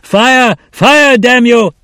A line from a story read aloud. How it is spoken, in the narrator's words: a shout, an order, one of his officers